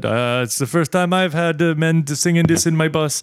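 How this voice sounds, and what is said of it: Put-on Caribbean accent. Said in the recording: “Well, not quite Jamaican. I can't do any. ... Can you do a Trinidad like accent”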